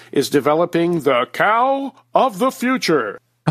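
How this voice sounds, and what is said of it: Exaggerated announcer radio voice. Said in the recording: “in my best radio voice”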